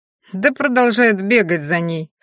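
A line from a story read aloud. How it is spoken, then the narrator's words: Contemptuous, through teeth. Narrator (Russian): с презрением процедил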